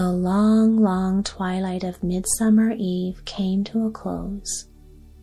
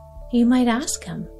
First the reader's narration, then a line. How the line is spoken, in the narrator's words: replied the doves